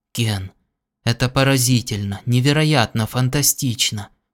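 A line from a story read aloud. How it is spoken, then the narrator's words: Awed whisper. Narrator (Russian): прошептал Хубл с благоговением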